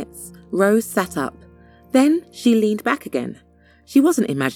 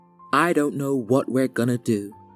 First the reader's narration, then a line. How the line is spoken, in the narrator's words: her father said